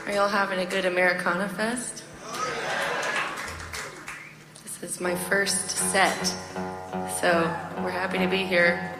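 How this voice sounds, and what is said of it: Strained, nearly lost voice. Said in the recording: “I'm on the brink of losing my voice already”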